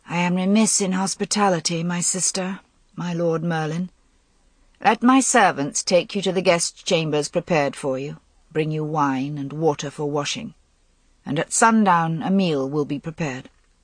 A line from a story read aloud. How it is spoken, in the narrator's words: She said in a dead voice